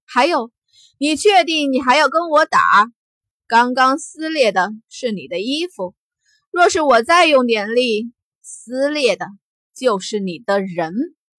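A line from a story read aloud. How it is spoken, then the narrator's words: Cold sneer. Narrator (Chinese): 惊鸿冷笑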